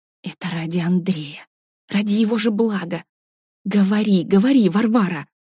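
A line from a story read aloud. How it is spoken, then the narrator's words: Hissing inner voice. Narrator (Russian): Тот голос внутри, что обозвал Варю дурой, прошипел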